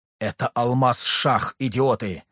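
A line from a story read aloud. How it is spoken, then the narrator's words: Angry roaring advisor. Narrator (Russian): взревел советник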